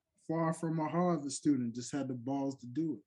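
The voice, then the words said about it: New York accent. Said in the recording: “Felt like you said that with a New York accent.”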